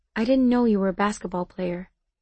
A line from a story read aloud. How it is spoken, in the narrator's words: quietly, I said